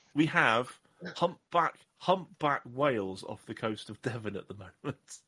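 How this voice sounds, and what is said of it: Usual voice. Nothing is said of it.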